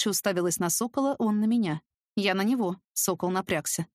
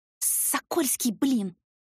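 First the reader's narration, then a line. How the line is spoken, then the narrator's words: Hissed. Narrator (Russian): Скорее прошипела, чем произнесла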